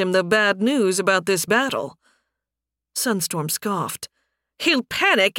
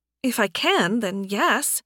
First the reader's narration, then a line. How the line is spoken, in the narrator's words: Anna replied